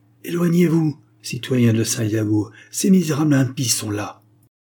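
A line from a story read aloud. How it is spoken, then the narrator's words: Terrified cry. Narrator (French): Une autre voix, pleine d'effroi, s'écria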